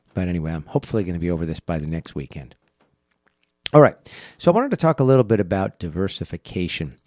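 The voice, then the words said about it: Congested voice from a head cold. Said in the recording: “excuse me for my voice has changed here with I'm fighting a little bit of a head cold”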